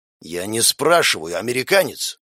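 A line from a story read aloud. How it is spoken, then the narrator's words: Through gritted teeth. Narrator (Russian): Процедил Теодор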